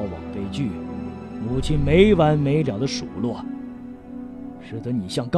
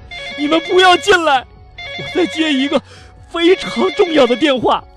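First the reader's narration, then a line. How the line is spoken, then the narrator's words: Frightened hurried shout. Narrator (Chinese): 这西姆啊，吓得赶紧喊道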